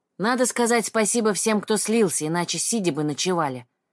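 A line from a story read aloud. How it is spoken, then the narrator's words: Plain. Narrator (Russian): сказал Олег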